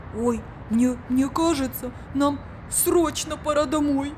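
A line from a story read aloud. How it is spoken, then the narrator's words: Frightened. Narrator (Russian): испуганно сказал Биби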